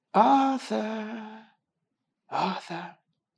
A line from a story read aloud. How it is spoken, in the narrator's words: whispered an inexpressibly peevish, rasping voice